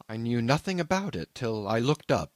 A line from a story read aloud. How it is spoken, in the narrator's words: he explained hastily